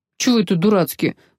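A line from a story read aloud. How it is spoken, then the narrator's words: Grumbling. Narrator (Russian): проворчал капитан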